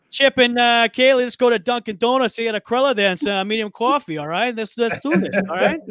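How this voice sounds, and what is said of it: Exaggerated Boston accent. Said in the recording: “that accent ... a Boston accent”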